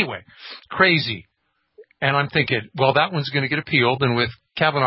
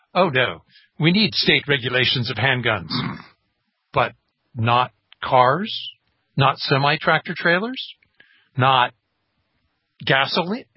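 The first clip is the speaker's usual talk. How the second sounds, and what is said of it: Put-on British elitist accent. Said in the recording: “the British accent to play the elitist technocrat, bureaucrat, judicial crat”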